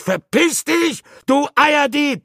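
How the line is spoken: Shouted. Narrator (German): schrie ich

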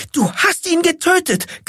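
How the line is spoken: Shriek. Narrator (German): kreischte

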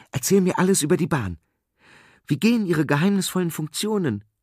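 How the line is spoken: Calling out again. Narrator (German): rief Peschel wieder

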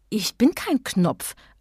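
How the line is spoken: Plain answer. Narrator (German): antwortete Emma

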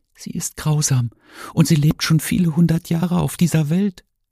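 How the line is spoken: Whisper. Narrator (German): flüsterte Martin

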